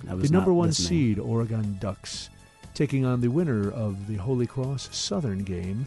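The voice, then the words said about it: Mellow public-radio announcer voice. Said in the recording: “Do you talk like an NPR announcer? I do now. ... podcasts are low-key ... Let's do the West region as NPR would do it.”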